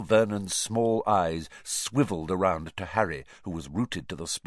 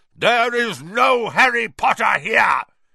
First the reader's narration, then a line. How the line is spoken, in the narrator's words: he roared